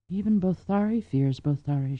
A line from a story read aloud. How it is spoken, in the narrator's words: she murmured in wonder